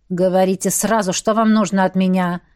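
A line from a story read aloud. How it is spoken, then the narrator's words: Hissed with hidden malice. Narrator (Russian): прошипел яркий представитель палаты лордов с затаенной злобой в голосе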